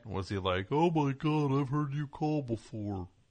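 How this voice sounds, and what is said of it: Cartoon turtle character voice. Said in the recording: “that impression ... I made him sound like that turtle from those Bugs Bunny”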